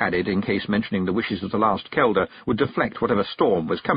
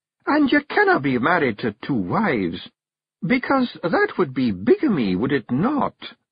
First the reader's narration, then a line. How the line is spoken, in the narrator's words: said Jeanie, her voice dangerously sweet